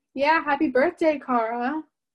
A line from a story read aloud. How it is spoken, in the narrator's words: a voice yelled from above